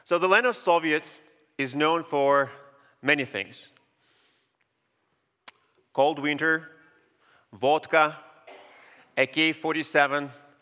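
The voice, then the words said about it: Soviet-born speaker's accented English. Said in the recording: “I was born in the Soviet Union ... my accent betray me pretty quickly”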